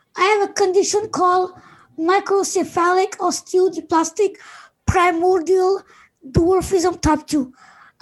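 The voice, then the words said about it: Unusual-sounding voice. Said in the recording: “my voice is a bit weird”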